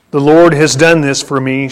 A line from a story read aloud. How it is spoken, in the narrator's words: she said